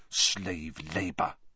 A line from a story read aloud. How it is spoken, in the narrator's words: Hermione ... mutter